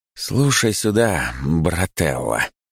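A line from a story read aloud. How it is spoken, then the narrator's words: Calm, slightly sinister. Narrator (Russian): говорю я спокойным, немного даже зловещим голосом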